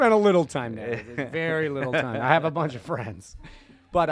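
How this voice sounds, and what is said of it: Usual voice. Nothing is said of it.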